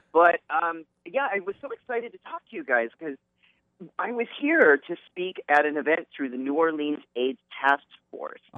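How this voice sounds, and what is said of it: Slightly raspy voice. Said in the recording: “my voice is a little raspy today.”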